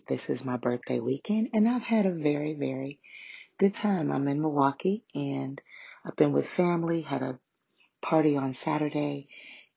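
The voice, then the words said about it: Strained, worn-out voice. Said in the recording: “excuse my voice... between screaming”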